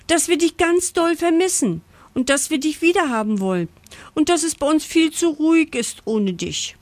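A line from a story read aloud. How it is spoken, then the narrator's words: Breathless gasping. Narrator (German): japs Pucki atemlos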